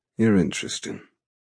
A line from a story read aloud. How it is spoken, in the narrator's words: he notes in the same thick voice